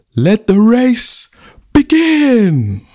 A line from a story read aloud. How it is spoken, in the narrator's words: took a deep breath and cried out